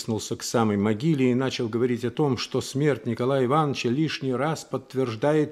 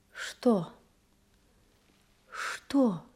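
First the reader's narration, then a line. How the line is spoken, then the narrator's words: Frightened, plaintive question. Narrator (Russian): испуганно, жалобно спросила она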